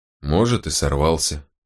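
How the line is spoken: Grunted. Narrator (Russian): буркнул Волкодав

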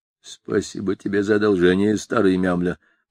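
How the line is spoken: Muttered. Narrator (Russian): пробормотал бортник

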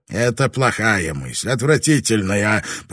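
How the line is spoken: Growling. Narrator (Russian): прорычал Хиромацу

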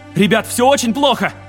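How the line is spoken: Shouted. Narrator (Russian): крикнул Лем

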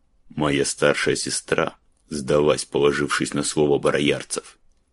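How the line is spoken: Cold. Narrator (Russian): холодно заметил Гален

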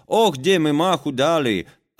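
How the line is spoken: Sad sovereign speaking. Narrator (Russian): государь Платову грустно говорит

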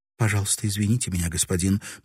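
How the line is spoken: Hesitant babbling. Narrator (Russian): пролепетала она, колеблясь

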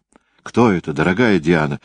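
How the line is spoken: Frightened question. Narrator (Russian): испуганно спросила она герцогиню де Мофриньес

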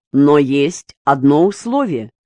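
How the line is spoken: Plain. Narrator (Russian): сказал Березин

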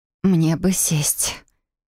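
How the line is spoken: Dizzy hoarse croak. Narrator (Russian): Мир перед глазами поплыл, и я прохрипела

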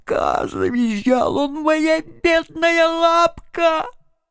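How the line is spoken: Moaning. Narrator (Russian): стонал

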